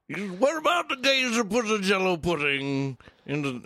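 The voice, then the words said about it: Imitates another person's voice. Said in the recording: “doing a Cosby impression”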